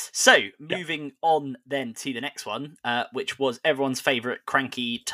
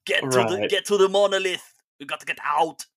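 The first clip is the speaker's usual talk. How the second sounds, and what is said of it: Bad Arnold Schwarzenegger Austrian impression. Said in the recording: “my terrible Arnold Schwarzenegger as the Terminator ... you did an Austrian accent”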